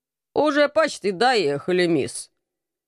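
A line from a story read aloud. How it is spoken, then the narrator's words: Displeased coachman grumbling. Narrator (Russian): недовольно проворчал извозчик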